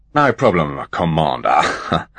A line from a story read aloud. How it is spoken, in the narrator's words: chuckled the centaur